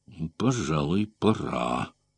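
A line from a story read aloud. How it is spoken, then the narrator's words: Mumbling to himself. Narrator (Russian): пробормотал как бы советуясь с самим собой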